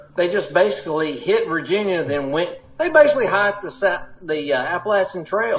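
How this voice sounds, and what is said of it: Appalachian American accent. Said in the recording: “my Appalachian accent”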